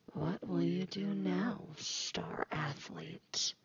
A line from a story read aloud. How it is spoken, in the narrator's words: She whispers to him, but her voice is not her own